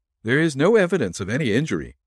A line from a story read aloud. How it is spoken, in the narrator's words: said the physician